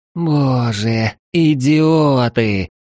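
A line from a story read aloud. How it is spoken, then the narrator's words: Groaning. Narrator (Russian): простонала первая дева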